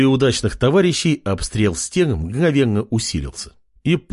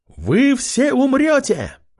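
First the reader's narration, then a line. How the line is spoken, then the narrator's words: Girl shouting. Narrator (Russian): выкрикнула упавшая с неба синекожая четырехрукая девушка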